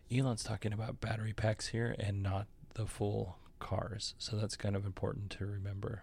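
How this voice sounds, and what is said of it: Golf announcer voice. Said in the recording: “my golf announcer voice”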